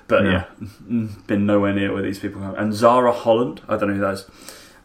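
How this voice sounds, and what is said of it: Essex English accent. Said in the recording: “I'm from Essex, as you can tell from my accent.”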